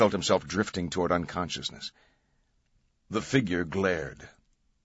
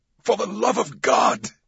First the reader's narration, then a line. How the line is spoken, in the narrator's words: Vetra screamed